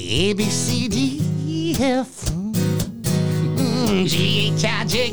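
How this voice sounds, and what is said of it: Sexy singing voice impression. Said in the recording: “I do a lot of singing ones... Al Green, and make it sexy”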